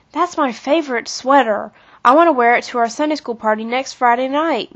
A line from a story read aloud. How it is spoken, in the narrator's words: moaned Kathy